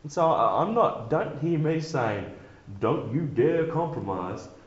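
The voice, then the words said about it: Put-on Southern US accent. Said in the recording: “Why would I put on a Kentucky Fried Chicken accent?”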